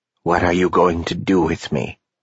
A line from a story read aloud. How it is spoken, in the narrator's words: Pilcher asked quietly